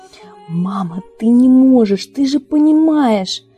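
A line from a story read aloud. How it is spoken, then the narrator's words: Loud exclamations behind door. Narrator (Russian): Возгласы Рона за дверью прикрывают громко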